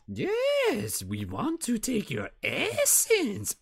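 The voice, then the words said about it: Skeksis creature character voice. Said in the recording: “we were doing some pretty good Skeksi impersonations.”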